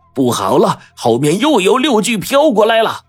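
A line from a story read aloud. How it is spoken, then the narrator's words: Loud shouting. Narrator (Chinese): 黄队这个时候大叫道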